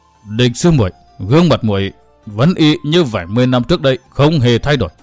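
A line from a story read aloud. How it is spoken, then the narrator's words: Trembling voice. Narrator (Vietnamese): lên tiếng nói trước, giọng điệu run run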